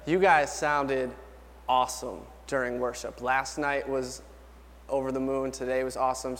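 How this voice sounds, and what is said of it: Tired, worn-out singing voice. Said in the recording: “you don't have a lot of voice left ... my voice is tired”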